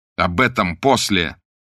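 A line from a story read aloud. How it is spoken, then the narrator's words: Almost angry interruption. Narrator (Russian): почти сердито прервал их Блад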